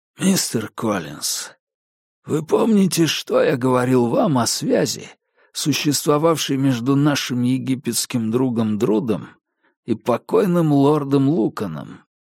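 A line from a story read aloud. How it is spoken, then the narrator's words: Hoarse whisper. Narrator (Russian): он хрипло прошептал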